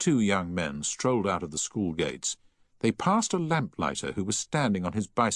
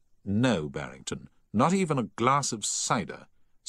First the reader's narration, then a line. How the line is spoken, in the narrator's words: said Paget firmly